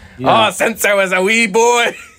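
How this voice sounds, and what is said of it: Put-on Scottish brogue accent. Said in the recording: “He's got the big Brog accent”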